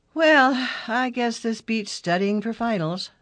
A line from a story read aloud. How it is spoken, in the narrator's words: Sonny sighed